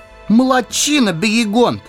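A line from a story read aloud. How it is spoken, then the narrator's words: Shouting hobbit. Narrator (Russian): выкрикнул хоббит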